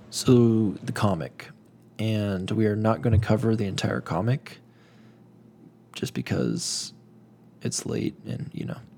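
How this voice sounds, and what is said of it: Strained, fading voice. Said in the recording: “And I'm losing my voice”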